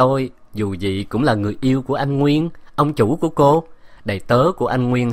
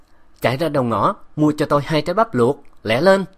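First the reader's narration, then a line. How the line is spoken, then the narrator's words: Hissing command. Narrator (Vietnamese): Bạch Yến rít giọng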